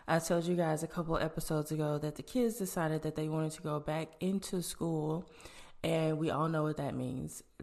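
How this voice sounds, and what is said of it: Stuffy, congested sick voice. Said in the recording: “as you guys may be able to hear in my voice, I am under the weather ... I am stuffy”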